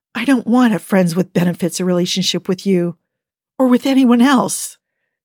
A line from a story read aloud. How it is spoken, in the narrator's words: his voice trembling slightly with the intensity of his emotions